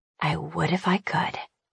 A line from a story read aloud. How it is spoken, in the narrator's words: I whisper